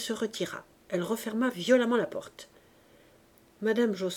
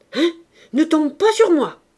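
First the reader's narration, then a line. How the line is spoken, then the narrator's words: Shouting. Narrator (French): cria-t-elle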